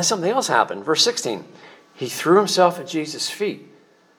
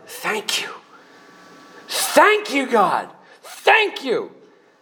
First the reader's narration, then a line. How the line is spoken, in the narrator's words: He's shouting